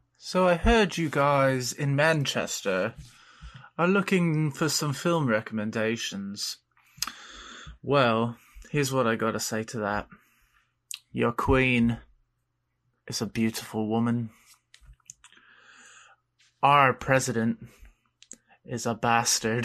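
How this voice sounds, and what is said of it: Faltering put-on British accent. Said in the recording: “I can't keep the British accent going”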